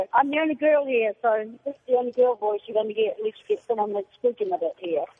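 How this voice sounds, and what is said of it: Woman with New Zealand accent. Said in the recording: “a.k.a. Kiwi ... I love the accent”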